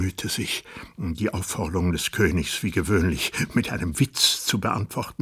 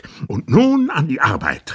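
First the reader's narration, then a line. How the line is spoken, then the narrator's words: Obese official calling out. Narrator (German): rief der Premierminister, der sich durch besondere Fettleibigkeit auszeichnete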